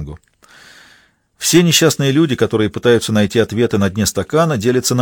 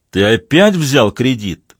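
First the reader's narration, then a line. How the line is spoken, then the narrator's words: Menacing voice. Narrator (Russian): грозным голосом переспросил Ратушинский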